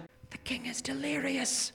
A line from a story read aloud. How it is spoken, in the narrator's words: whispered a noble